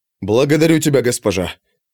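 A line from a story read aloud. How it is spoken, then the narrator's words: Mutter. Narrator (Russian): пробормотал Леша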